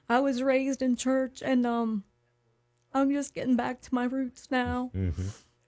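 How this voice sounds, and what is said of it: Emotional, choked-up voice. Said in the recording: “I'm getting choked up.”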